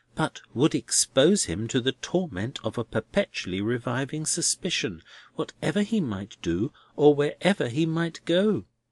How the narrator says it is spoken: Crisparkle warmly

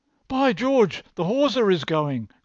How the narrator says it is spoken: cried Stangate

